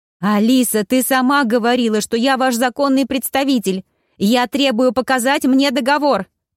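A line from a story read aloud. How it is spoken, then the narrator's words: Shouted. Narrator (Russian): выкрикнула Таня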